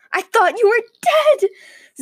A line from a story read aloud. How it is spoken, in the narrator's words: Zack exclaimed